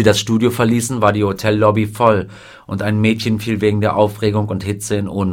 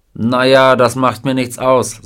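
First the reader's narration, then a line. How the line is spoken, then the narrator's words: Plain. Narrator (German): sagte er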